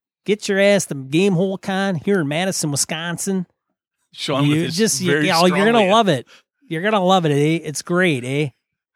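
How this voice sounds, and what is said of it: Put-on northern Wisconsin accent. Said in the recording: “That's almost as bad as your Australian... accent... That's Wisconsin native, man... That's up north native.”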